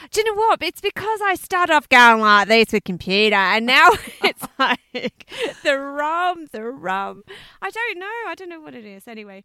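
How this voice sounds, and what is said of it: Broad Australian accent. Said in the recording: “Your Australian accent is like so broad.”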